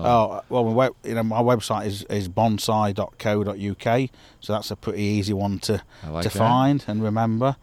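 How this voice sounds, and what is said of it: Unusual regional accent. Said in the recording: “a hairy looking bloke with a strange accent”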